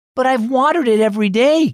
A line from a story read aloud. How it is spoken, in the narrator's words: Gail exclaimed